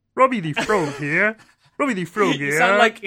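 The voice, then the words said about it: Kermit the Frog voice, British accent. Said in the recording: “How do you do Kermit the Frog, but English? ... You sound like Brandon DiCamillo ... He used to do a British accent that was a bit like that.”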